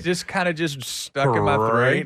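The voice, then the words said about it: Slight Southern drawl. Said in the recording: “you had a little southern drawl on that one.”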